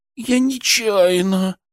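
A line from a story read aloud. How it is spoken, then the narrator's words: Moaning. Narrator (Russian): простонала медсестричка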